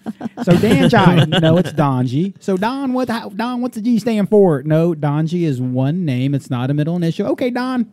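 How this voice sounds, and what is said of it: Southern American accent. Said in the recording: “Why is there a southern accent attached?”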